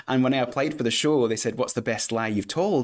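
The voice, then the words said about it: Put-on Scottish accent, fairly convincing. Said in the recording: “that is a pretty good Scottish accent. I'm really impressed ... It's not bad, right? It's okay. It's not perfect, but it's all right ... I've heard real Scottish people with weirder accents than that”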